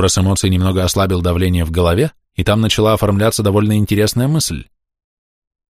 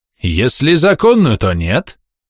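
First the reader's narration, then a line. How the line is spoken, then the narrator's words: Malicious smirk. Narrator (Russian): Зло ухмыльнулся араб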